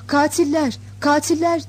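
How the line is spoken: Crowd crying out. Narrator (Turkish): diye haykıran Sırplar

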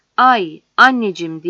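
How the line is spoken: Shouted. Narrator (Turkish): diye bağırdığını

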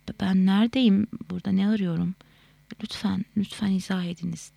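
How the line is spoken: Moaning. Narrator (Turkish): diye inledi

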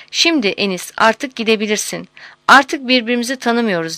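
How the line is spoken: Laughing. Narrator (Turkish): Zeynül Mevasıf gülerek ona

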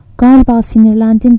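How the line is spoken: Laughing. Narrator (Turkish): dedi Merdan gülerek

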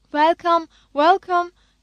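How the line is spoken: Cheerful shout, older woman. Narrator (Turkish): diye neşeyle bağırdı Banu teyze

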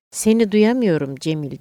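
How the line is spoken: Speaking loudly. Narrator (Turkish): diye yüksek sesle konuştum

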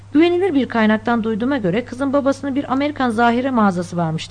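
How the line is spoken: Plain. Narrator (Turkish): dedi

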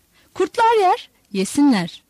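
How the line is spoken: Shouted. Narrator (Turkish): diye bağırdı Yuhanna

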